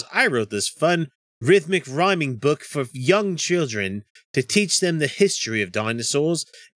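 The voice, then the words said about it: Imitates another person's voice, put-on accent. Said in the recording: “that accent is on point ... No, it's terrible.”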